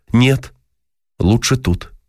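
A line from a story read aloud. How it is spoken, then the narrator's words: Plain. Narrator (Russian): ответил ей Дима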